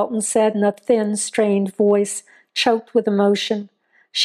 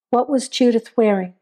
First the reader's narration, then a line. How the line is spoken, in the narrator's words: Joe asked evenly